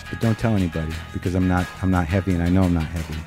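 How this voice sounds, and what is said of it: New York accent. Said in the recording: “this New York accent”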